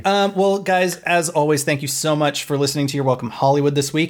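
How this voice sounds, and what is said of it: Tired, slightly froggy voice. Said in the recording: “not fun for my throat ... my regular voice is a little tired ... A little froggy.”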